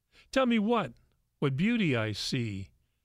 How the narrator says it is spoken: the man asked

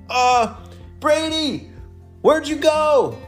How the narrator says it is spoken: Ella shouted

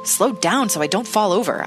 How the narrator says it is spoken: I muttered, hiding my almost painful excitement beneath my usual gruffness

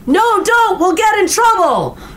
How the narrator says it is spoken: One adult yelled

